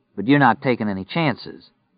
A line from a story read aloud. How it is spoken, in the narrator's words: Stu said dryly